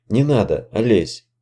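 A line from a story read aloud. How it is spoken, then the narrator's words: Barely audible. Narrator (Russian): едва слышно проговорила Янка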